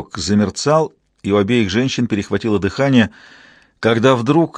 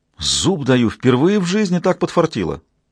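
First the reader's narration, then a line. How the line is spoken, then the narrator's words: Exclamation. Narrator (Russian): воскликнула Мэддокс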